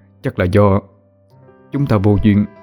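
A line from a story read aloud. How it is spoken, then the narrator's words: Stammering. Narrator (Vietnamese): Cậu ấp úng nói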